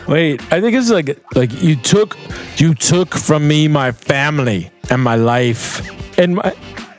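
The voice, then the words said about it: Put-on New York accent. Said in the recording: “You sound like a guy from New York.”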